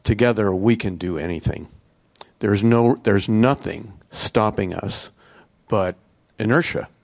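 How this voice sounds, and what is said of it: Choked-up, emotional voice. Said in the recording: “I get a little choked up”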